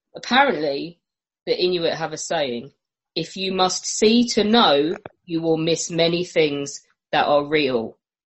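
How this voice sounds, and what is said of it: Put-on Cockney accent. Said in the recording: “I will do it in a Cockney accent for you”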